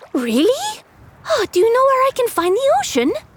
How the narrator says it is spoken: asks eagerly

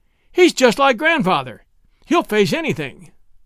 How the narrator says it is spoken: cried in a gust of tears and laughter

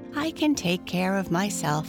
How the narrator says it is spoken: said John

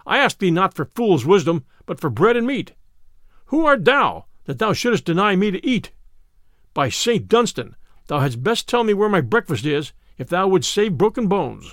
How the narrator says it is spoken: cried Little John

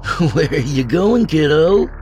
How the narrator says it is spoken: Billy laughed

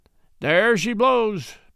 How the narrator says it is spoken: Matt cried

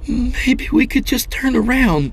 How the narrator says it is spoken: she pleaded

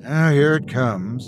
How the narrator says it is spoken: I sighed

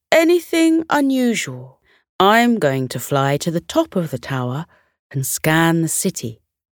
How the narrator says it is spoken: Zavara called out

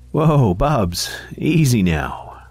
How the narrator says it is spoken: said Karen with a chuckle

